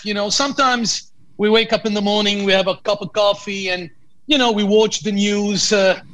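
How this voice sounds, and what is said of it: Lebanese accent. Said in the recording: “where is your accent from? So I know you're from Lebanon.”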